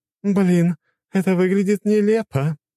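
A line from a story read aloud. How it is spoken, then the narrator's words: Sudden laughter. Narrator (Russian): вдруг рассмеялась Цусима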